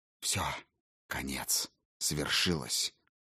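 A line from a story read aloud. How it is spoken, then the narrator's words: Barely audible whisper. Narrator (Russian): Тихо, почти неслышно прошептал Калигула, так, чтобы слова не дошли до Макрона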